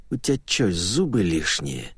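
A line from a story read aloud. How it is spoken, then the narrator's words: Hissed. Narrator (Russian): тот сказал, не сказал даже, а прошипел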